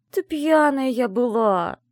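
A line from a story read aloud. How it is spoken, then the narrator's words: Groaning. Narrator (Russian): застонала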